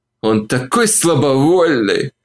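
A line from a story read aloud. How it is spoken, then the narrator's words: Moaning. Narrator (Russian): простонала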